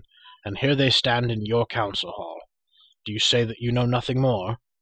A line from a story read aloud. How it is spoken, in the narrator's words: cried Gwydion